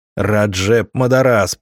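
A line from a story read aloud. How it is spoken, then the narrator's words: Yelled in unison. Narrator (Russian): заорали синхронно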